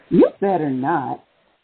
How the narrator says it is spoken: Rose squealed, struggling

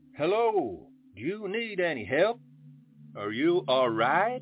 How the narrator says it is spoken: I asked in a loud voice

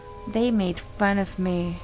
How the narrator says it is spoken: whispered eerily

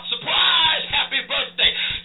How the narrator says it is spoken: the crowd in there, led by Campolo, hollers out

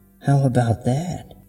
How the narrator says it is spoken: laughed a dry, croaking cackle that was wearing thin

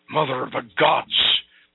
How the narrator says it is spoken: Prince Brand exclaimed

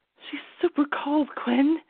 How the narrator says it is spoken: Kyler whispered Holly

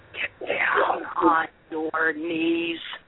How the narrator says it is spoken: In a vile, hissing voice, the assailant ordered

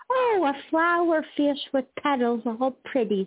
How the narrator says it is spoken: she shrieks wide-eyed

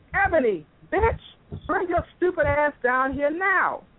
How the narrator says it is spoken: he yelled

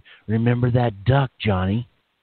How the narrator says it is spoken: Again, she whispered

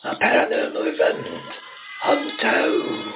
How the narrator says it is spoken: the ominous shriek of a woman

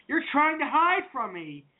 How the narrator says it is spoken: shouting

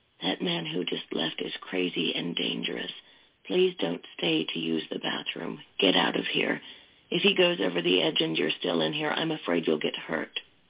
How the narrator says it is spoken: In a stage whisper, she said

